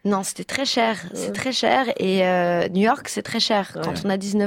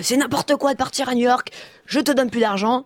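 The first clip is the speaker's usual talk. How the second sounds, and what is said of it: Imitation of her father's voice. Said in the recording (French): “Très bonne imitation.”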